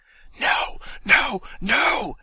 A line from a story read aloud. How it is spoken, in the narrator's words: hisses the voice in his ear